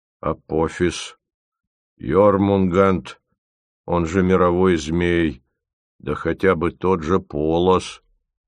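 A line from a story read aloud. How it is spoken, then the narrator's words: Solemn announcement. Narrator (Russian): торжественно объявил Зырянов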